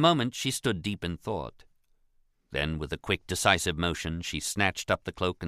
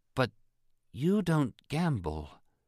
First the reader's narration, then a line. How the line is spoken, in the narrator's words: she continued slowly